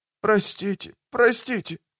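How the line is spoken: Hoarse repetition. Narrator (Russian): Все повторял хриплым голосом

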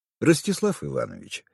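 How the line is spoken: Calm interjection. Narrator (Russian): спокойно вмешался Михаил Петрович

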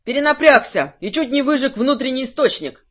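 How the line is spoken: Shouted. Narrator (Russian): крикнул он

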